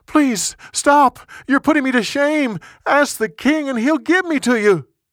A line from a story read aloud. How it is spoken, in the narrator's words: She begged him